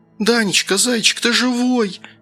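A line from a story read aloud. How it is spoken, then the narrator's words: Tearful shout. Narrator (Russian): Сквозь слезы прокричала Анфиса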